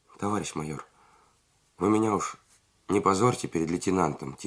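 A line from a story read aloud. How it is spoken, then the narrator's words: Quiet request. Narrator (Russian): тихо попросил Дычук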